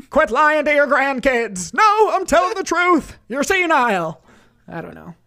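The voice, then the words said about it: Screaming old man character voices. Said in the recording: “that was two old guys ... scream in an old man voice”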